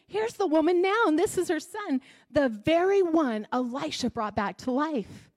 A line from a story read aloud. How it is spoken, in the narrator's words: Gehazi exclaimed